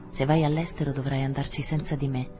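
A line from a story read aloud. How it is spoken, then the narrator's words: Excited, almost cruel tone. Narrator (Italian): come eccitata dal suono della sua voce non contraddetta, andò tanto oltre da dire in un tono quasi crudele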